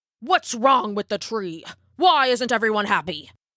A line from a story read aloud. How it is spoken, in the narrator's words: snapped the elder